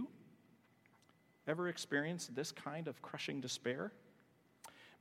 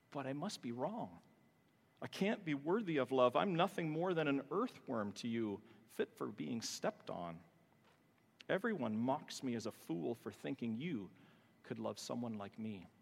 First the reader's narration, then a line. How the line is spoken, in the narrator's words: cries the psalmist